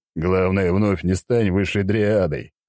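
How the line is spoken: Chuckling. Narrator (Russian): хохотнул я

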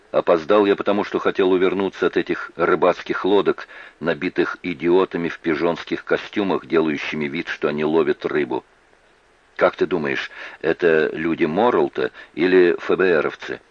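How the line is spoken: Plain question. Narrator (Russian): спросила Эбби

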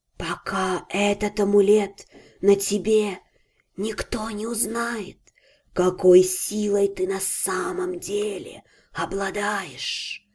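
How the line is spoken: Snake's quiet whisper. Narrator (Russian): Тихо прошептала змея

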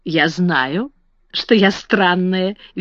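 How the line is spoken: Cheerful. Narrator (Russian): весело сказала Сара

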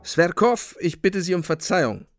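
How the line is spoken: Curt and resolute. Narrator (German): sagte ich schroff und entschlossen

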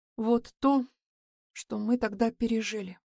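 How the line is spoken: Quietly speaking. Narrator (Russian): тихо говорю я

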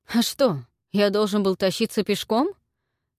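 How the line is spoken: Snorting. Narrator (Russian): фыркнул Филипп

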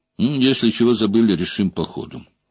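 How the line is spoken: Calm. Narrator (Russian): спокойно сказал Мандрыка

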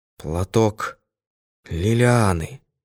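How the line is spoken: Hoarse moaning words. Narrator (Russian): Послышался хриплый звук, и как стон вырвались два слова

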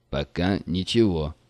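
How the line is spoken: Plain. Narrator (Russian): сказал Млайн

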